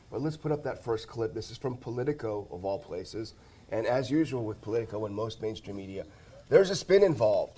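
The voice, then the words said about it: Rough, slightly hoarse voice. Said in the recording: “I get a little bit of a bug. So my voice is a little rough.”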